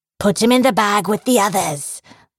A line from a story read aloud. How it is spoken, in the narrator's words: the short one shouted, grunting as he pursued Victor